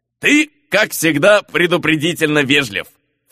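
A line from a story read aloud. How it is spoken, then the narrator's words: Snorted. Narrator (Russian): фыркнул Мигель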